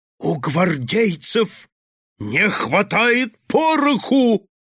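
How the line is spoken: Booming. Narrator (Russian): прогремел он еще раз

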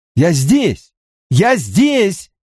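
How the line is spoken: Shouting into emptiness. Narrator (Russian): выкрикнул я в пустоту

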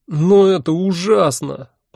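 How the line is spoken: Near moan. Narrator (Russian): почти простонал я

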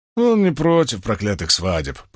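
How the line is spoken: Grumbling mutter. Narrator (Russian): пробурчал Уна

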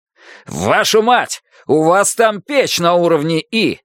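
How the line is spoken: Yelling. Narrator (Russian): заорал Стекхаус

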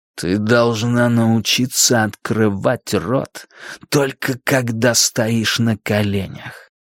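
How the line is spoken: Whispered. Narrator (Russian): Фрэнки прошептав

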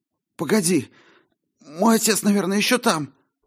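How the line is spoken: Exclaiming after speechlessness. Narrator (Russian): Обретя дар речи, воскликнул он

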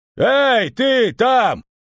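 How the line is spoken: Yell. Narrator (Russian): заорал он

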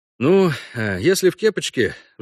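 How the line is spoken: Sighing. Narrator (Russian): вздохнул Парт

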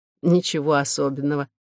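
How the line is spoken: Weary smirk. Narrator (Russian): ответила та, устало усмехнувшись

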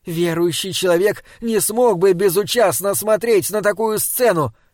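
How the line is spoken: Shouting after someone. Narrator (Russian): крикнула она ему вслед

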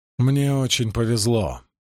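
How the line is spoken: Sighing. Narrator (Russian): вздохнула Мерилель

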